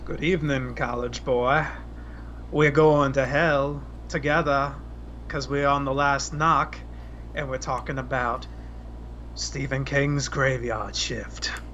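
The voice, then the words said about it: Put-on southern Maine accent. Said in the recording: “I'm doing a southern Maine accent here, apparently.”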